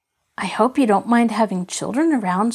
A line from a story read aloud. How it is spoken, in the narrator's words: said Marjorie, somewhat anxiously